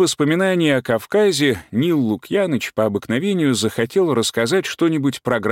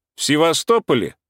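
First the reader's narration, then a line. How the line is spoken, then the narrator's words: Cheerful chiming in. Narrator (Russian): подхватил весело Уля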